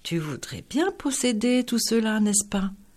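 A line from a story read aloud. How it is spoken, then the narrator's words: Interested sigh. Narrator (French): soupira-t-il plein d'intérêt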